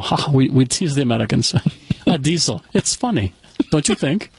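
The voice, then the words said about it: Put-on creepy German accent. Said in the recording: “the German ... that's a creepy accent”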